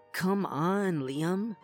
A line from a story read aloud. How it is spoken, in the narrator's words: she groaned